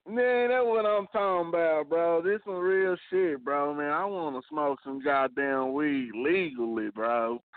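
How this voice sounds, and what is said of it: Strong Texas accent. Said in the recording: “you Texas up and down, cuz... you hear it in my voice, huh?”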